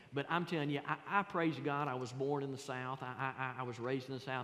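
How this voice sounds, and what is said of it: Southern American drawl. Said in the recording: “my accent ... the Southern accent and the Southern drawl”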